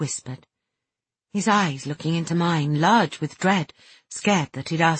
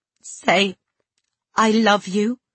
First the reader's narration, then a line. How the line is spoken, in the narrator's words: he choked horribly